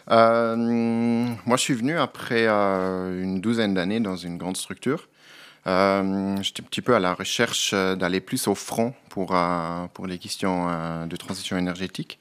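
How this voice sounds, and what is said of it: Slight regional Swiss accent. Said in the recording (French): “vous avez un petit accent. Vous êtes originaire des Grisons.”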